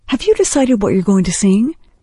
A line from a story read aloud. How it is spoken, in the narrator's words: Heather giggled